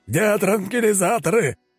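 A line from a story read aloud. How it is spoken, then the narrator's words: Yelling man. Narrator (Russian): орал усач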